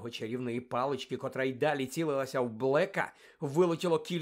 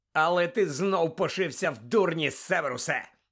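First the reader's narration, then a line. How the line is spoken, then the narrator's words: Harsh bark. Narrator (Ukrainian): гаркнув Блек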